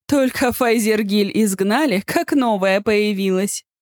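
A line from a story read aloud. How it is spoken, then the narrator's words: Laughing girl. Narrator (Russian): рассмеялась девушка позади меня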